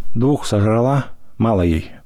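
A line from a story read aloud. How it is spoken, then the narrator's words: Through gritted teeth. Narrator (Russian): процедил Колька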